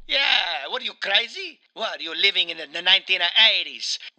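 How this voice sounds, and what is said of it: Mario character voice, Italian accent. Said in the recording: “You kind of do the accent when you're not the Italian ... Mario ... Mamma mia”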